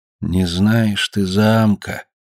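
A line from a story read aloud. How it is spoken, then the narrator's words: Quiet. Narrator (Russian): тихо сказал хозяин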